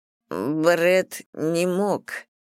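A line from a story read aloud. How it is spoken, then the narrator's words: Weak mumble. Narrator (Russian): слабым голосом пробормотал Стив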